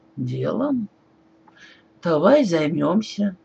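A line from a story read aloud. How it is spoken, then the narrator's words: Smirking grunt. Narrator (Russian): он хмыкнул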